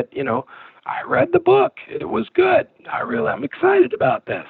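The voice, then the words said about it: Imitates another person's voice. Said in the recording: “You do a good Woody impression.”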